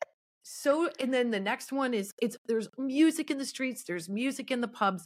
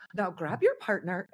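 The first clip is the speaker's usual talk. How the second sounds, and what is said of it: Bad put-on Irish accent. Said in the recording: “that's a terrible Irish accent”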